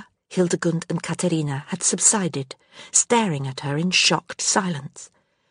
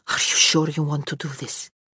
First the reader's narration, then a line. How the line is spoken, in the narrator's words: Constance's breath hissed through her teeth